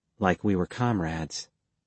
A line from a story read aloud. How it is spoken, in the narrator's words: she said softly